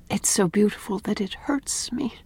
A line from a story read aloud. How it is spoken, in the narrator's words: said Anne softly